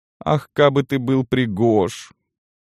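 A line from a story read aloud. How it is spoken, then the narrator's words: Muffled, hollow voice. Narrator (Russian): произнесла она глухо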